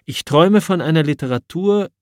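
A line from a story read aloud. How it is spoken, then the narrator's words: Calling out in lecture. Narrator (German): rief der junge Hamsun 1891 in einem Vortrag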